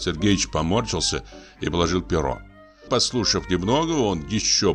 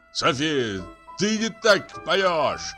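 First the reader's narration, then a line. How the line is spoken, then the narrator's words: Shouting. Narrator (Russian): закричал он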